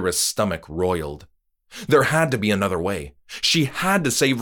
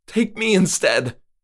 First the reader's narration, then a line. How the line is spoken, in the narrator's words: she pleaded